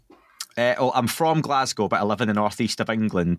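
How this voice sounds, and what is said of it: Scottish accent. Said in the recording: “I just love your Scots accent.”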